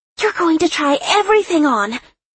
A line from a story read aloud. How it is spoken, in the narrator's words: Lark exclaimed